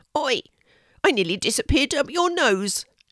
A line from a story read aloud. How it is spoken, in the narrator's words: exclaimed a little voice